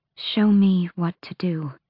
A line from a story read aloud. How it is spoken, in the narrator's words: she breathed